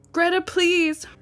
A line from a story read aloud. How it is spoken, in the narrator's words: yelled